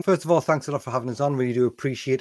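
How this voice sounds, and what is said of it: Northeast English accent. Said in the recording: “Most people from the UK will be able to tell by my accent that I'm from up in the northeast of England”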